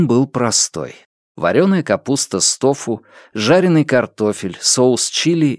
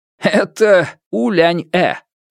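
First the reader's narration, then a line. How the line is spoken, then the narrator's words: Laughing teacher. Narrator (Russian): учитель Джоу рассмеялся и сказал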